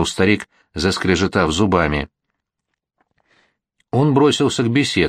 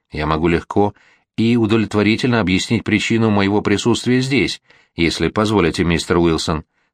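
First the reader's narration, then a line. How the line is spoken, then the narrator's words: Plain. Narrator (Russian): сказал Лоу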